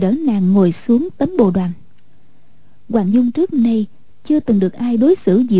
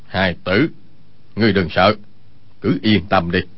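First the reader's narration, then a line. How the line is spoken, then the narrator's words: Serious lowered voice. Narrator (Vietnamese): vẻ tươi cười lập tức thu hết lại, hạ giọng nói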